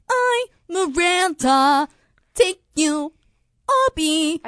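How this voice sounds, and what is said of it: Imitation of Miranda Sings character voice. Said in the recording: “my Miranda Sings impression ... I don't think she's normally singing.”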